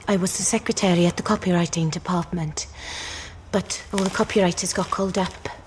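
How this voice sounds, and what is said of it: Put-on Welsh accent, rather flat. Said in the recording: “she's got a bit of a Welsh accent then? ... I thought it was a pretty good Welsh accent ... very flat. Very flat.”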